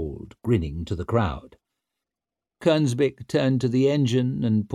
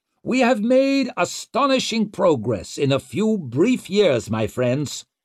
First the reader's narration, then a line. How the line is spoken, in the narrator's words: bellowed Kernsbeck